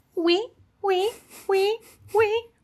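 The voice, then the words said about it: Imitates animal vocalization calls. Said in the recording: “some of the call types that they've got ... I'm doing my impression.”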